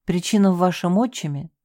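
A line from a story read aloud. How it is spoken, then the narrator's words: Sighing. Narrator (Russian): вздохнула я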